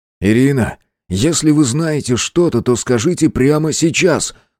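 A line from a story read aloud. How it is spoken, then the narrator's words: Forceful, almost rude demand. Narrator (Russian): С напором почти грубо потребовал Андрей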